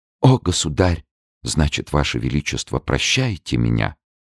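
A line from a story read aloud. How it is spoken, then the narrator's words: Weak whisper. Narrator (Russian): Она прошептала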